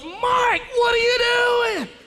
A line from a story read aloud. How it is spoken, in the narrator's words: Sister Kelly blurts up